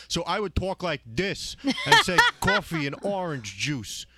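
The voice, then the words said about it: Exaggerated Long Island accent. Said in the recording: “I used to have a terrible, terrible accent ... He was so Long Island”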